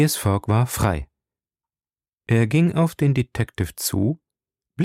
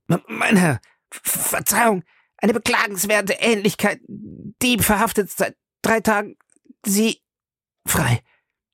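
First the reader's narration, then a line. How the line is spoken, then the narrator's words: Stammered. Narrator (German): stammelte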